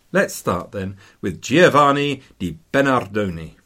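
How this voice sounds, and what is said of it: Put-on Italian accent. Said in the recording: “That's my Italian accent”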